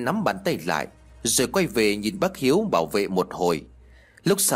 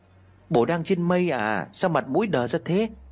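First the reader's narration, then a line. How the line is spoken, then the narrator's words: Sighing. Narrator (Vietnamese): Lý liền thở dài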